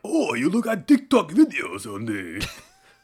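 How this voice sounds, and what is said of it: Poor put-on Japanese accent. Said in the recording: “my Chinese accent, apart from it being really shitty ... it sometimes morphs into like a Japanese accent ... That was supposed to be Japanese?”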